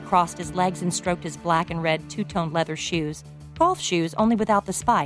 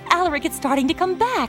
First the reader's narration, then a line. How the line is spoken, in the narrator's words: she said excitedly